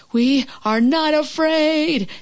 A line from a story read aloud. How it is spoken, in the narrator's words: screamed Frog and Toad at the same time